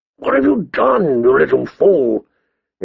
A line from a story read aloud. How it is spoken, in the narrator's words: he asked hoarsely